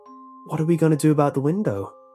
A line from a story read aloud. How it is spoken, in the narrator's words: Susie asked